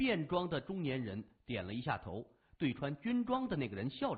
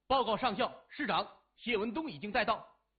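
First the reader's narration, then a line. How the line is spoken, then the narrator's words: Loud. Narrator (Chinese): 年轻人大声说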